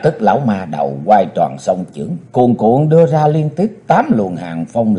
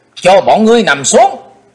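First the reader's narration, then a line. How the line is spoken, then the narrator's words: Shout. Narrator (Vietnamese): theo tiếng quát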